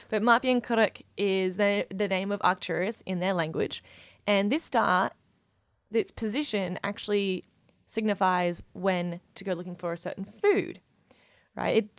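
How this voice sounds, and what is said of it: Voice with a cold. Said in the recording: “My throat hurt a little bit then. I've got a bit of a cold”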